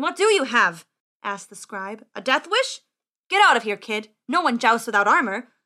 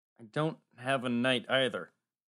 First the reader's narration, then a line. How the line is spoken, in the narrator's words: Max said miserably